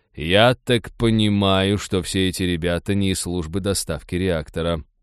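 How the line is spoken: Grim joking. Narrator (Russian): мрачно пошутил Майкл

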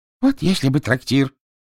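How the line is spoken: Delighted exclamation. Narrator (Russian): воскликнул доктор в восторге

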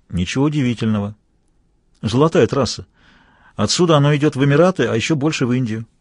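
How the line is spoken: Calm. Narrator (Russian): Вундеркинд спокойно сказал

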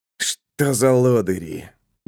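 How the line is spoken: Grumbled. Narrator (Russian): буркнул Рольден

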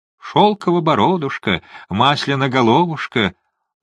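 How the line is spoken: Cooing nymph. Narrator (Russian): проворковала нимфа

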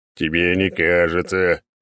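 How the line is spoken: Deep bass. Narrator (Russian): пробасил Черномор

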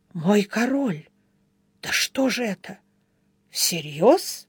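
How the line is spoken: Bewildered old man muttering. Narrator (Russian): седоусый Глэрд растерянно пробормотав

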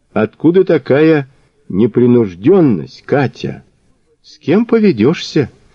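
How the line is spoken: Innocent sigh. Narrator (Russian): невинно вздохнула любимая жена

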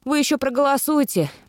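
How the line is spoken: Grumbling. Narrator (Russian): буркнула я

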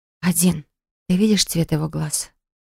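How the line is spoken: Whispered question. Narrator (Russian): спросила шепотом

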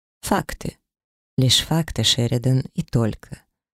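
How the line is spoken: Calm. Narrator (Russian): спокойно проговорил он

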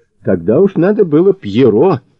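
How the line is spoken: Snorting. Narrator (Russian): хмыкнул Мазур

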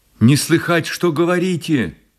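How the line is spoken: Shouted. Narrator (Russian): прокричала она

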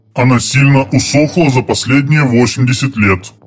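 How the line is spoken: Booming drone. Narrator (Russian): прогудел Драмба

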